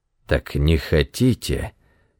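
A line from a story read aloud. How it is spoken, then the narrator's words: Hissed. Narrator (Russian): прошипел он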